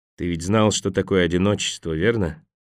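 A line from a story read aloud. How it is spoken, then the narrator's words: Quiet question. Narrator (Russian): негромко спросил Харпер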